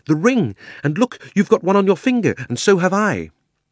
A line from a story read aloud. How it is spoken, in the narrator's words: cried Diggory